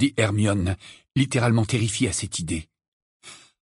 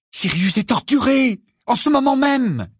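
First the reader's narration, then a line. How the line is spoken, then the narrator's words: Cried out. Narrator (French): s'écria Harry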